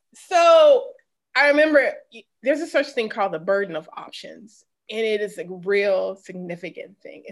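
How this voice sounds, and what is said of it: Mississippi accent. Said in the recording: “my Mississippi accent's about to come out”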